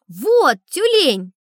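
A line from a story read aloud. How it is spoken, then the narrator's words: Shouting. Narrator (Russian): Я закричал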